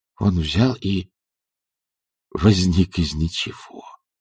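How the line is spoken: Whisper. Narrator (Russian): прошептал, о боже

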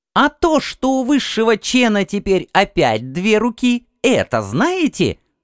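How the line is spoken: Shrill voice. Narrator (Russian): продолжил визгливый

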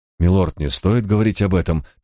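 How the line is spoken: Hurried interruption. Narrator (Russian): торопливо перебил Барк

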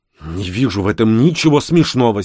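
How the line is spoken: Angry declaration. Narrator (Russian): сердито заявил я

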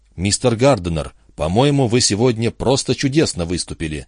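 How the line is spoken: Timid speech. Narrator (Russian): Бармен робко сказал

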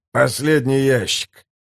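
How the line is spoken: Exhausted gasp. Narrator (Russian): выдохнул измотанный Флап

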